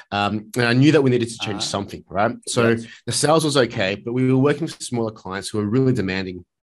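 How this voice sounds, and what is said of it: Sick, slightly strange-sounding voice. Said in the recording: “if I sound a bit weird, I've got a flu”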